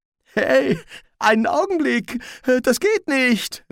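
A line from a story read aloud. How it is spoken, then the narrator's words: Calling out. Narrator (German): rief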